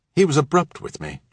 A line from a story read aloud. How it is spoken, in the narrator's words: Jan said